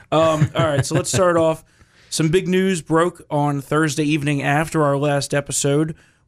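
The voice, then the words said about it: Slightly raspy voice. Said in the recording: “Sorry for my voice being a little raspy.”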